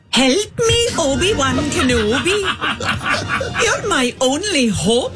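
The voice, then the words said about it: Put-on Welsh accent. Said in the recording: “Do the accent. ... In Welsh.”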